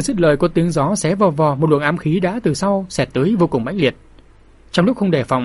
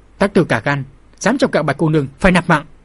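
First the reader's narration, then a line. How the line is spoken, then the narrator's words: Loud bark. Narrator (Vietnamese): có người lớn tiếng quát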